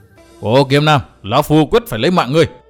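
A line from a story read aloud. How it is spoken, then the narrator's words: Enraged roar. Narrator (Vietnamese): Phác Ma Thiên máu nóng liền xông lên đến óc, gầm to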